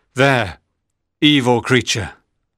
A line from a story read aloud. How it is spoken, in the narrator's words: cried